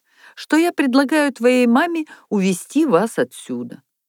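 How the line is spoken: Cheerful speech. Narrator (Russian): снова весело заговорил жених

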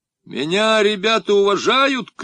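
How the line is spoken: Shouting. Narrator (Russian): крикнул я

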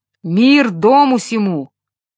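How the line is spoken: Booming voice. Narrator (Russian): прогремел он

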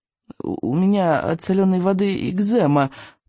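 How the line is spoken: Mumble. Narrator (Russian): промямлил Рыбьенок

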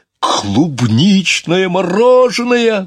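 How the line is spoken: Exclaimed. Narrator (Russian): воскликнул

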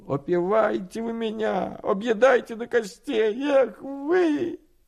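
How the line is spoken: Old man groaning, squealing. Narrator (Russian): Дед охал и взвизгивал

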